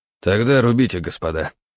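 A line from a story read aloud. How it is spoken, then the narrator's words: Sighing. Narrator (Russian): вздохнул Константин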